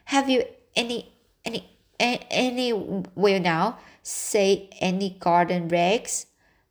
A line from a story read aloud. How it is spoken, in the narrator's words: stammered Matthew